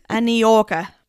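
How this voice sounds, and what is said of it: Bad put-on New York accent. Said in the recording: “Really bad New York accent”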